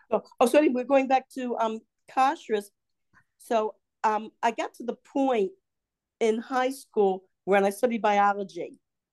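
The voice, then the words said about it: Baltimore drawl with strong O's. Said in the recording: “you speak with a Southern accent... it's a Baltimore drawl where we mumble everything and we say our O's really strong”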